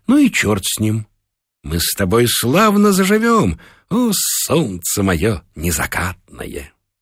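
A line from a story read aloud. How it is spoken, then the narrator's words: Calm. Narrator (Russian): спокойно сказала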